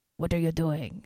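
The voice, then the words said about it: Angry put-on French accent. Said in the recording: “an angry French guy in a beret going ... That was my French impression”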